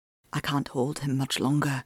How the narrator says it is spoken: he whispered

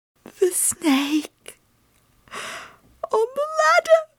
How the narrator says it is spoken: she gasped

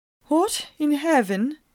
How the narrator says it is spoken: I began, my voice still a tremble

